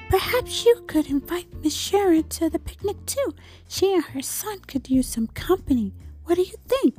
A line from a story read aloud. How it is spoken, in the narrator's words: whispered Frog